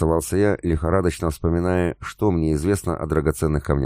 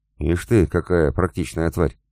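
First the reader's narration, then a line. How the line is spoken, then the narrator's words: Muttered. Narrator (Russian): пробормотал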